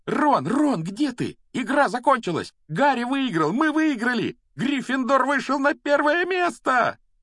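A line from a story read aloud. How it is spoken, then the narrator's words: Joyful screaming. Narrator (Russian): Радостно вопила Гермиона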